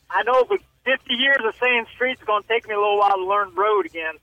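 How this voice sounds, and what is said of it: Ohio accent. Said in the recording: “his Ohio accent”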